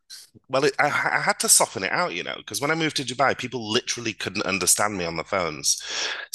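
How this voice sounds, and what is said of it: Softened northern English accent. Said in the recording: “I had actually quite a deep northern accent ... you can hear a little twang ... I had to soften it out ... I've sort of kept this more neutral ... you can definitely detect a northern twang in there”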